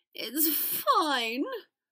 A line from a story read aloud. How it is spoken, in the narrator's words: Draco gasped, squeezing his eyes tightly as they began to leak uncontrollably